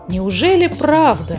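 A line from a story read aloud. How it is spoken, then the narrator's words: Mother's surprised exclamation. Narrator (Russian): воскликнула муми-мама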